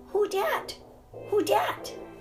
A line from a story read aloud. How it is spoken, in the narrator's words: said Poppy in her small, piercing voice